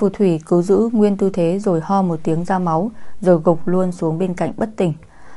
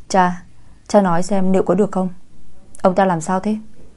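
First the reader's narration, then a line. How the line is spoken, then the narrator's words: Young man, softly. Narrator (Vietnamese): Người đàn ông trẻ tuổi khẽ gọi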